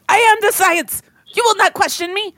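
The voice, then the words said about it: Attempted New Jersey accent. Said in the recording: “I can't do a New Jersey accent. ... Oh, that's what that was.”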